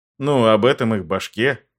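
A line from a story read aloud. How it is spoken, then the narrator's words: Snort. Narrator (Russian): хмыкнул я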